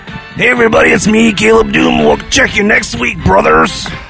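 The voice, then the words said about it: Imitates another person's voice. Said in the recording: “doing a Hulk Hogan impression ... First of all, it's macho man.”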